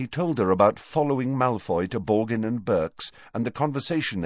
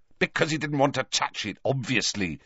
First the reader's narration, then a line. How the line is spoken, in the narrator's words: said Harry angrily